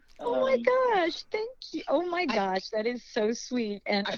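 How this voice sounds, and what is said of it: Usual voice. Nothing is said of it.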